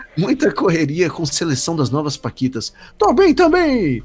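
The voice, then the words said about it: Imitates another person's voice. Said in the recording (Portuguese): “Eu estou imitando o Gugu.”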